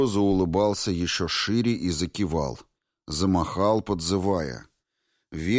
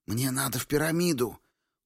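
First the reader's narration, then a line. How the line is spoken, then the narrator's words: Loud whisper. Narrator (Russian): Громким шепотом произнес Рико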